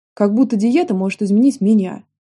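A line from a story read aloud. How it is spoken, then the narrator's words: Angry hiss, young woman. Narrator (Russian): зло шикнула девушка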